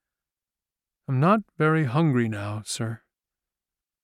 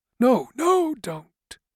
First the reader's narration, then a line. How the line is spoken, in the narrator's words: gasped Hathaway